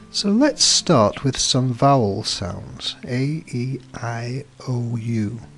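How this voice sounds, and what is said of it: Northern English accent. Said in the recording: “I speak with a Northern English accent, and as such, my English pronunciation is a little bit different to London English or American English”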